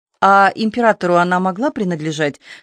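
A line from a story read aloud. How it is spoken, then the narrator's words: Plain. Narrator (Russian): спросила подошедшая Варвара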